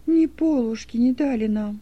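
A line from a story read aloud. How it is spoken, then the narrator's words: Girl's sad remark. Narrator (Russian): печально заметила девочка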